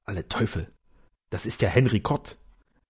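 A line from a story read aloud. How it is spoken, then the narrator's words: Servant whispering. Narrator (German): der Diener flüsterte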